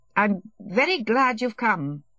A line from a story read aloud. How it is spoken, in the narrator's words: he said, obviously wishing to say something, he stuttered